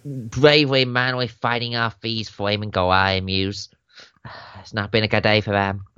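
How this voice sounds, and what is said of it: Deliberately put-on Australian accent. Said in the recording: “Oh, sorry, I have to put on an accent... That was intentionally an accent. I'm sorry if it's terrible. I think I've offended the Australian fan base”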